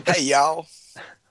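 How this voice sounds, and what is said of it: Southern US twang. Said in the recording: “You got that South Carolina twang”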